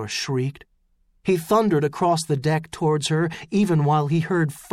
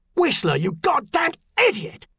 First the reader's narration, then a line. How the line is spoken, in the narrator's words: Elaine Deccan bellowed